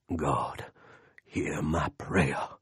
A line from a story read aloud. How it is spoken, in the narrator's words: Lester said in his growly, I'm really praying voice